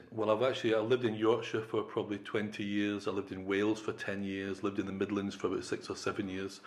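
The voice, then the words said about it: Strong Scottish accent. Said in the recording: “a strong Scottish accent”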